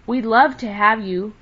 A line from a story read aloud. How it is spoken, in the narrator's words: cried Happy Jack, speaking for all